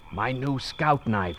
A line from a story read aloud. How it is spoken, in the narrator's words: whispered the boy